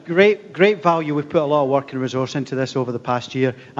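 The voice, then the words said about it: Non-Southern, non-American-sounding accent. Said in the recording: “You'll hear from my accent. I'm not from Arkansas or Alabama.”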